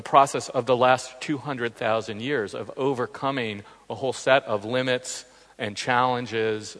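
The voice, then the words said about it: Australian accent. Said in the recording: “the Aussie accent's a little unusual for these ears”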